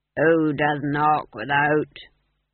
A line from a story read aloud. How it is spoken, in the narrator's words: he growled